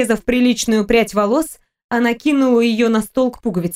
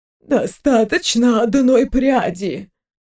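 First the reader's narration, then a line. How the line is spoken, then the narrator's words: Convulsive gasping exhale. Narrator (Russian): Виктория судорожно выдохнула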